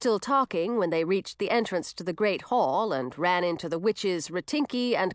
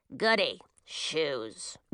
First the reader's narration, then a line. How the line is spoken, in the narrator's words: grumbled Ratinky